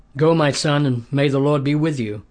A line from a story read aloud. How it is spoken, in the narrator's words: said